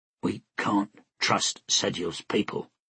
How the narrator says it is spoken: Tenig said in a hushed voice, as if Sediel himself were listening

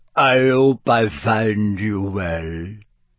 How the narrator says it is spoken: said Madam Maxine in a deep voice

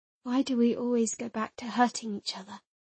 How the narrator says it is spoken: I asked in a small voice, hoping not to destroy the fragile truce

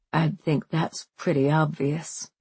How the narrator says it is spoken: Ruth says quietly

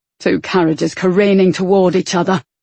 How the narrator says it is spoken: Wit growled

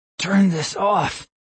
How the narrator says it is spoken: I gasped

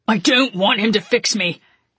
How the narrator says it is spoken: Constantine shouted back

